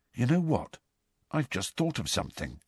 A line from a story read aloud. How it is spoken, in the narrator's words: said Ron in a hushed voice